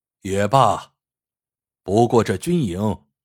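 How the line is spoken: Sighing. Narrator (Chinese): 乾隆叹了一口气……说

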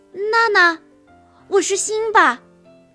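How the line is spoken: Joyful surprised cry. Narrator (Chinese): 辛巴……惊喜地叫道

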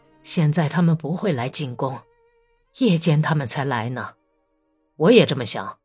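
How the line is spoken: Low voice. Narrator (Chinese): 克里沃什雷科夫低声说

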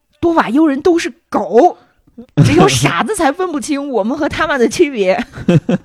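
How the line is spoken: Very angry. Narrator (Chinese): 对面非常的愤怒，说

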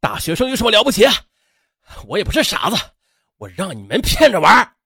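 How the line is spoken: Angry shout. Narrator (Chinese): 秦兵气愤的在他们背后喊道

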